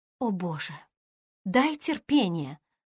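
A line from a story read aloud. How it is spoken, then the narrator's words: Exasperated sigh. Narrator (Russian): вздохнула Эмми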